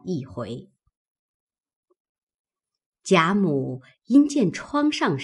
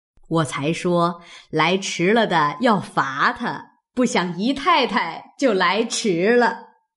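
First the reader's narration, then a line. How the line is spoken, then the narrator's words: Laughing, old woman. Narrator (Chinese): 贾母笑道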